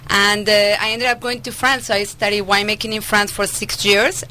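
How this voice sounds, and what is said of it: Slight Colombian Spanish accent. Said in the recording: “I have a little accent... I was actually born and raised in Medellin, Colombia, in South America.”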